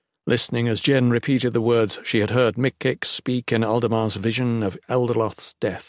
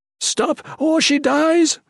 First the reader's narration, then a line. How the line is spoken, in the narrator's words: Duran yelled